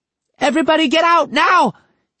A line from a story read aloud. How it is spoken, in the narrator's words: Hideki yelled